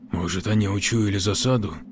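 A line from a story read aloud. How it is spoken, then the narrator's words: Whispered. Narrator (Russian): шепнул Кожин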